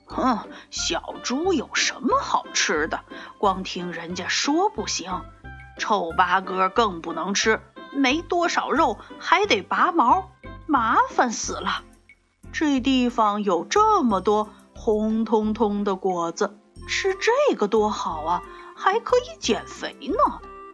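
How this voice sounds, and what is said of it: Rough, hoarse gruff character voice. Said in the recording (Chinese): “一个又粗又哑的声音说”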